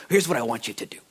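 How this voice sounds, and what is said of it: Imitates another person's voice. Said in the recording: “I'm trying to do my best John Corson impersonation.”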